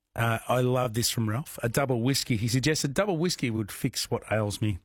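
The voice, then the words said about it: Unwell, rough-sounding voice. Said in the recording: “I was a big crook. As you can tell by my voice, not sounding that great”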